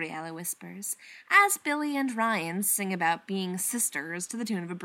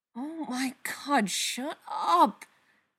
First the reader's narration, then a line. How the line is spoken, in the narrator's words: Spencer mutters